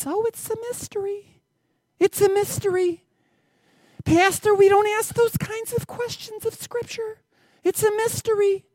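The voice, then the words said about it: Mocking voice of a pious churchgoer. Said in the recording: “This is where I do my voice at least once a week. You get the person that says”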